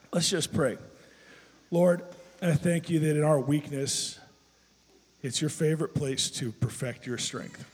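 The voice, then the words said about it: Voice in poor condition. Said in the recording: “It's almost as sad as my voice sounds today”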